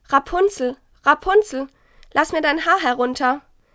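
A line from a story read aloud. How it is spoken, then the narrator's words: Calling out. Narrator (German): rief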